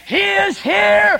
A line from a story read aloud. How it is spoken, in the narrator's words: Edwards died triumphantly saying